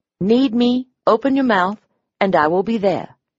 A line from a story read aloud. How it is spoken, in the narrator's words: he'd said